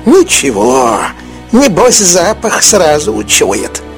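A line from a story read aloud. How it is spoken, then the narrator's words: Old woman grumbling. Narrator (Russian): буркнула старуха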